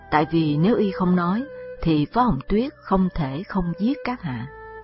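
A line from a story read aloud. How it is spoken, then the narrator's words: Sighing reply. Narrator (Vietnamese): Diệp Khai thở dài, đáp thay Lộ Tiểu Giai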